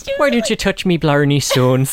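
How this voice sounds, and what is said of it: Put-on Irish accent. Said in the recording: “Irish accent”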